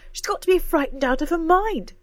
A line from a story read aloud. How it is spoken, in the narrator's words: cried Cora